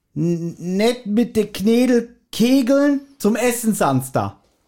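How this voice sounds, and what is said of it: Weak attempt at Bavarian dialect. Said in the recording (German): “ich kann es nicht aussprechen, kann kein Bayerisch”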